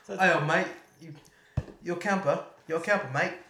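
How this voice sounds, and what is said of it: Put-on Australian accent. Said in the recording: “Sounds like you're doing Australian. ... the Australian accent”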